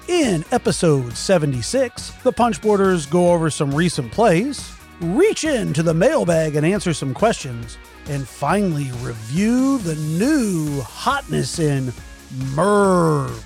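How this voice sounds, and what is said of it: Announcer-style radio voice. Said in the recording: “That was like my radio voice. I was like really selling it there.”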